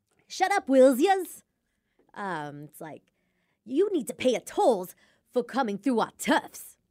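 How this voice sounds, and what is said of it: Cartoony tough-guy New York accent. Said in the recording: “paranoid ... New York accent ... kind of New York accent, and like the voice I used ... Kind of tough guy ... over dramatic in my delivery. It was just cartoony”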